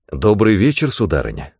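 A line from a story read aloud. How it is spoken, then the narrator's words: Plain. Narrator (Russian): сказал я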